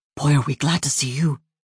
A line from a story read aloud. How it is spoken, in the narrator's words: Dylan started to whisper